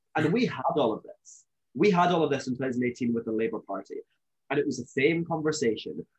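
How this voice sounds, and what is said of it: Scottish accent. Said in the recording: “I'm from Scotland, as you may know, you may be able to tell from my accent.”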